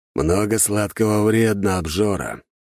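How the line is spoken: Grumbling. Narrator (Russian): проворчал Дориан

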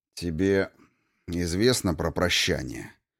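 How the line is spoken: Sighing. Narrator (Russian): Вздохнув, начал он

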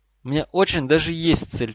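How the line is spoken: Exclaimed, near tears. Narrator (Russian): чуть не плача воскликнул Трейси Дэвис

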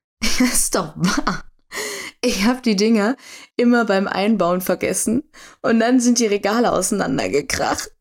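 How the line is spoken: Spluttering with laughter. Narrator (German): Doch sie konnte einfach nicht aufhören zu lachen und brachte prustend hervor

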